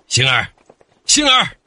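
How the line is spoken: Calling out from afar. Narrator (Chinese): 二舅还没走近就叫着

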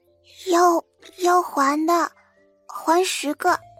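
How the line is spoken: Small, shy voice. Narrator (Chinese): 谢希，声音小小的

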